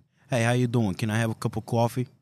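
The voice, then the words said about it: Put-on New York accent. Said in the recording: “I'm working on my New York accent.”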